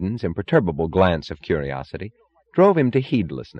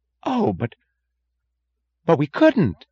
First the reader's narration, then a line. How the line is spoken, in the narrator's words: gasped Mooch